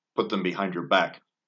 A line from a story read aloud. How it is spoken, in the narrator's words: he commanded coldly